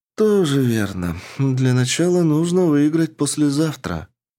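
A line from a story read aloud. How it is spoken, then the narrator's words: Heavy sigh. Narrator (Russian): тяжело вздохнув, ответила Рика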